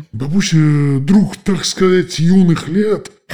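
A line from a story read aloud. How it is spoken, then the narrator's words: Hoarse wolf. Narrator (Russian): хрипел волк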